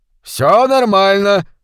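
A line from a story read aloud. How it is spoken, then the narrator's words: Shouting governor. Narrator (Russian): прокричал губернатор Бенбридж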